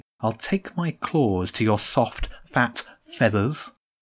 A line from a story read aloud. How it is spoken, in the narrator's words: the Empress said calmly